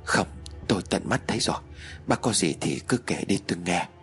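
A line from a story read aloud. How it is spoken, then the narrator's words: Trembling reply. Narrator (Vietnamese): Mạnh run rẩy rồi đáp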